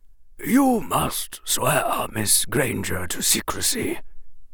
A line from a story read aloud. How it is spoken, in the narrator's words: Dumbledore said gravely